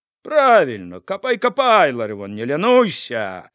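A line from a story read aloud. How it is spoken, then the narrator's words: Loud laughter. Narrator (Belarusian): зарагатаў Яўхім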